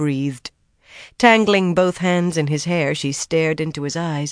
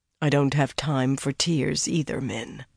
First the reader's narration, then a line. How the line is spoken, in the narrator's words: he said gently